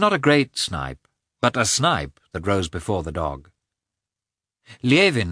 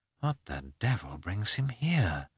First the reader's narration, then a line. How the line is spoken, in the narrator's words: muttered Levin to himself